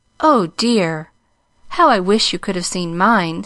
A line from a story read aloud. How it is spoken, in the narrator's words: sighed the little girl